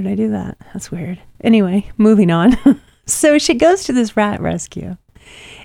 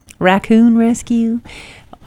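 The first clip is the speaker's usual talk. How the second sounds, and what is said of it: Put-on hillbilly accent. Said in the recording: “I had to say it with a hillbilly accent.”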